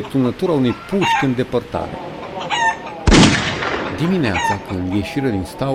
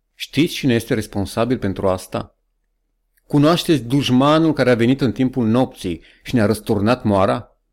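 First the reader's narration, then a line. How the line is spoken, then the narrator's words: Calm. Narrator (Romanian): zise el liniștit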